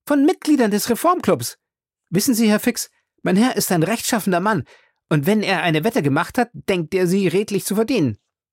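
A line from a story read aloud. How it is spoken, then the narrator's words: Calling out. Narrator (German): rief Passepartout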